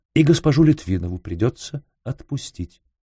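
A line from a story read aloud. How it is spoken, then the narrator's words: Soft, gentle. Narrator (Russian): мягко сказал Раст Петрович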